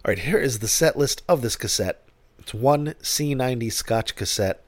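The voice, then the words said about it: Deep, congested sick-sounding voice. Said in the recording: “clearing my throat seems to help bring stuff up... I am ready to be well at any time now. Although I do like the deep voice.”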